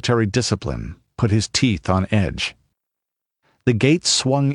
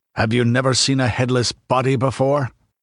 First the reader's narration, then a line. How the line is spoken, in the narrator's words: Conan asked testily